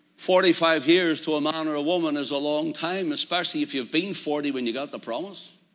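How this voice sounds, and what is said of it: Non-American regional accent. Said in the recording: “for our American friends that don't understand our accent”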